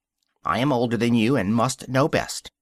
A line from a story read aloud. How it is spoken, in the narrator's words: the Lory, who at last turned sulkily and would only say